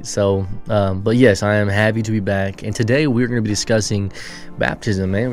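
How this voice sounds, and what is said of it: Sick-sounding voice. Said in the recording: “I've been sick, as you can tell in my voice.”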